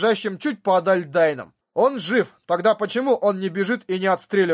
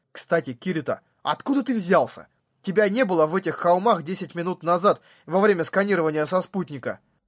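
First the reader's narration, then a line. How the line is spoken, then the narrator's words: Quiet question. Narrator (Russian): она негромко спросила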